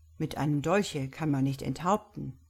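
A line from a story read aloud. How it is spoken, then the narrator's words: Calm reply. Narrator (German): erwiderte Brown ruhig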